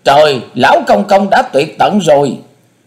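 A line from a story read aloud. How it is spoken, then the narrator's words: Boy screaming. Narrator (Vietnamese): Quyết Lang đồng tử, cậu bé gào lên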